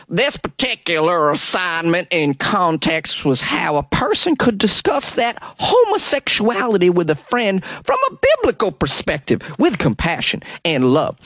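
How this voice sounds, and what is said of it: Put-on accent, imitates another person's voice. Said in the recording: “let me do this accent for Darren”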